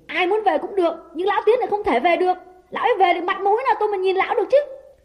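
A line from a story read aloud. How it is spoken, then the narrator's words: Angry shout. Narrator (Vietnamese): Đào quát lên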